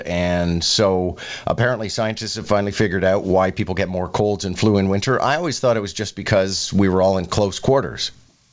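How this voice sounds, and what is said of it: Congested voice from a cold. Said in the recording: “As many people can probably hear in my voice, I'm getting over a cold.”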